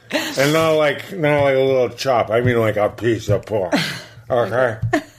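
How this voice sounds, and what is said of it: Impression of a speaker's dad. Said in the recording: “You're doing my dad thing ... That's exactly Dad ... how completely accurate your impression is of your dad”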